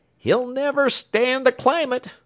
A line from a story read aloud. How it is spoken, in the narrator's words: he shouted back